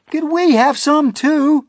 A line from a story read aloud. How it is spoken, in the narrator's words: cried